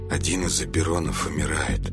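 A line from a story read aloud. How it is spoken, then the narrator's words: Grim reply. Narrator (Russian): мрачно ответил Николас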